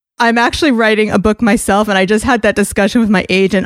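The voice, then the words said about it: Thick New York accent. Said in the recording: “my thick New York accent”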